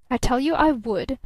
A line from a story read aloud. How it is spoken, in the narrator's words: snapped the younger man